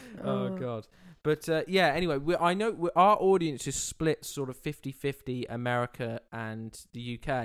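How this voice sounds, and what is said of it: British English accent. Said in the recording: “whenever I've been to America, as soon as they've heard my accent, they've asked questions about the royal family”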